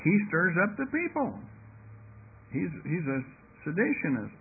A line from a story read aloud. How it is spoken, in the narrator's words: the priest became vehement and cried